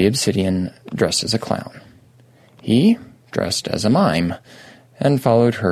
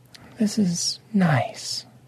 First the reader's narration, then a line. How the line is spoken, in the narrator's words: Lady Obsidian said softly